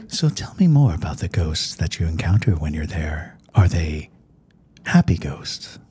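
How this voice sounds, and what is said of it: NPR radio host voice impression. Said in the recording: “good NPR impression... my NPR voice”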